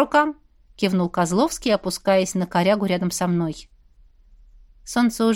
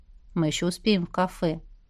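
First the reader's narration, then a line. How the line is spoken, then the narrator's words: Soft-spoken. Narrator (Russian): Кость негромко произнес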